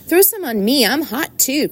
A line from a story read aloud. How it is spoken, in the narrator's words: cried Avery